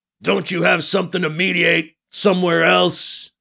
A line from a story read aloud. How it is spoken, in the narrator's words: Anton says to Alibi in a menacing tone of voice